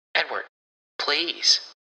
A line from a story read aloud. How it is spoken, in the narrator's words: he says weakly, the biting insult confusing and hurtful